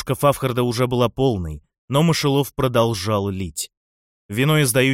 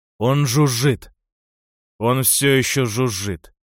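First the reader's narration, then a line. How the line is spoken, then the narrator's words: Muffled growl. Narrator (Russian): с приглушенным рычанием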